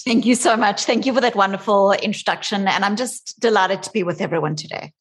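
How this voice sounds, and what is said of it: South African accent. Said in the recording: “You can hear from my accent that I didn't master the Bostonian accent. I'm originally from South Africa.”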